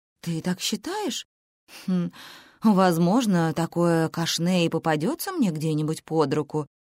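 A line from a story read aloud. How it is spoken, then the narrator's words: Mutter. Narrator (Russian): пробормотала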